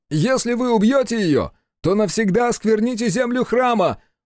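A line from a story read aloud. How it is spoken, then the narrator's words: Very loud shout. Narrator (Russian): Закричал Хицу так громко, что его голос заглушил гул катящегося колокола, топот и гомон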